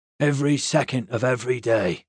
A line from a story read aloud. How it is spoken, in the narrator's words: the boatman rasped